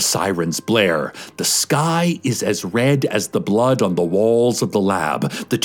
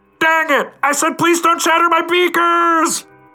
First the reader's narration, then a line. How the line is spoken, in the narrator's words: Outside, Carlos yells